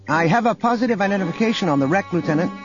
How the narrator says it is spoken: junior intelligence officer called out

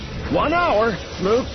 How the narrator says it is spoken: Lando shouted

